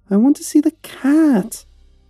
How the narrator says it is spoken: whined

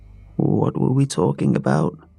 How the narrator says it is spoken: she murmured

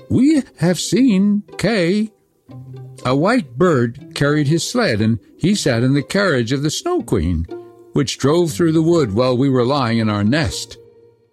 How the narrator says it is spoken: quite suddenly, the wood pigeons piped up and said

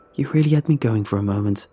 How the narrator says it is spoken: Jennifer says with an anxious laugh, rattled

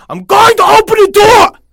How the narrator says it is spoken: the mother suddenly shouted

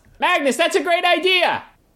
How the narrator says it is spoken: She actually yells

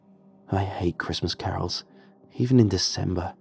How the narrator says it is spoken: muttered the other guy

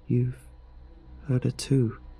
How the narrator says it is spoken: murmured

